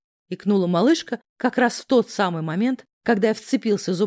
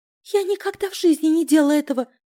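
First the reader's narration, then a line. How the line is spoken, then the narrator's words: Timid babbling. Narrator (Russian): пролепетала дурочку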